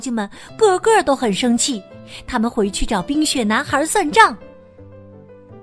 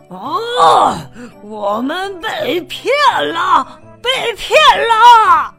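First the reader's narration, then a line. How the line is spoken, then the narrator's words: Roaring. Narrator (Chinese): 妖精国王咆哮着说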